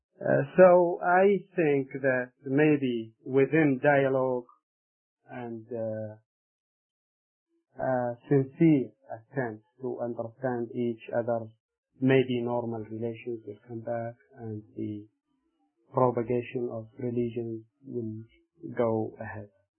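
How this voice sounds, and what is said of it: Noticeable foreign accent. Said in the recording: “my accent”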